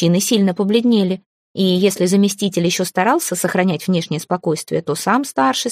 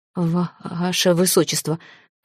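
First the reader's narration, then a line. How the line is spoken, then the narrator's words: Trembling mumble. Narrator (Russian): промямлил он, не в силах скрыть дрожь в голосе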